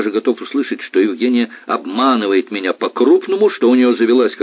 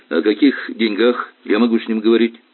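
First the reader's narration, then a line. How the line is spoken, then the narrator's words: Plain. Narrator (Russian): спросил Сурин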